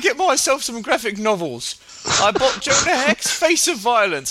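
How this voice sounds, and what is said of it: Deliberately bad put-on British accent. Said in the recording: “the worst British accent ever”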